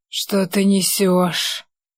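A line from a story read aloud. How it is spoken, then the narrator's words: Hissed like dying snake. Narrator (Russian): Прошипел я подыхающим змеем, хотя скорее уж хотел проорать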